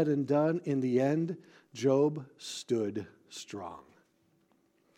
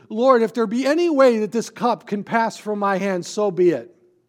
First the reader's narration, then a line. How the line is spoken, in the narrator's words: he cried out saying